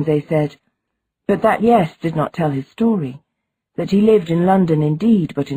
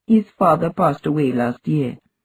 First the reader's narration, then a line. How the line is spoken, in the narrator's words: the woman said in a lower voice